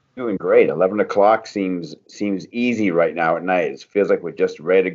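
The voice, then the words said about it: Maine accent. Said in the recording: “an amazing Maine accent”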